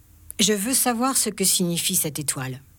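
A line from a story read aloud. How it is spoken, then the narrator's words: Plain. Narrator (French): dit-il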